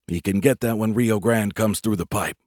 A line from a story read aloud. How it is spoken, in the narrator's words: I said quietly